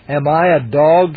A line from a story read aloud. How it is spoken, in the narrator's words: exclaimed